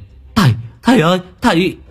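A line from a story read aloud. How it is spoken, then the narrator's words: Crying out. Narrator (Vietnamese): Chi kêu lên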